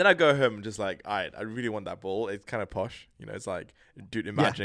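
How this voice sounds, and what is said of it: Usual voice. Nothing is said of it.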